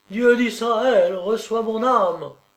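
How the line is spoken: Cried out, young unhappy woman. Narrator (French): s'écrie la jeune et malheureuse divorcée

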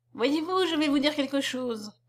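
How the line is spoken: Murmured. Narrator (French): murmura Saint-Rame

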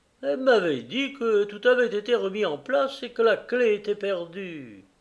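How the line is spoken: Murmuring. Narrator (French): Il murmura

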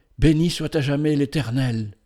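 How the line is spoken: Mother's fervent exclamation. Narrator (French): s'écria la mère, avec la ferveur de sa foi renaissante

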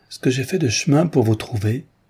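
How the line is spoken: Exclaimed. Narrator (French): s'écria-t-elle

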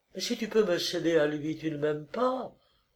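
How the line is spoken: Murmuring. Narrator (French): murmura-t-elle

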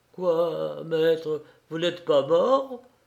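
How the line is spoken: Stammering man. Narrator (French): balbutiait l'Irlandais

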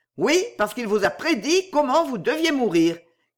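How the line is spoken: Shouting while fleeing. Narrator (French): cria le plus jeune de la bande en s'enfuyant

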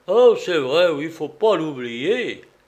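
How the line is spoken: Sighing. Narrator (French): soupira Théophraste

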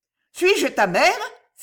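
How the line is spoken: Exclamation. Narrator (French): s'écria la comtesse

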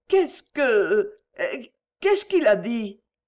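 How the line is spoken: Broken, halting voice. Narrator (French): fit Berthe d'une voix entrecoupée

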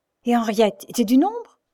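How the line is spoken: Beside himself, exclaiming. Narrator (French): s'écria Roger hors de lui

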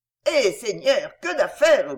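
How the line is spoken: Grumbling. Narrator (French): grogna Suzon

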